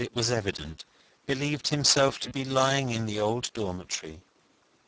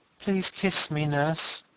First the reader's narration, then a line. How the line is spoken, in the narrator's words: he said in a placid voice